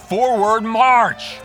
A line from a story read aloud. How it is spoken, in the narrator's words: Their bespectacled colonel bellows